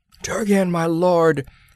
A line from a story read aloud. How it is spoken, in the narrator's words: he cried